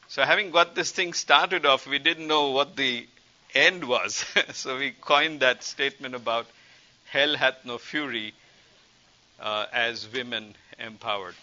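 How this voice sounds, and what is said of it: Speaks with a noticeable accent. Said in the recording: “Can you understand me also? I'm sorry, this is the only accent I have.”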